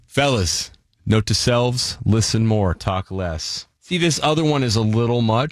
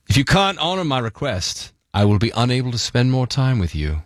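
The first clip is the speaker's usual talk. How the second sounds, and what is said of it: Put-on British accent, formal. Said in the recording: “I'll do it in a British accent, make it more official ... Much more effective in the accent.”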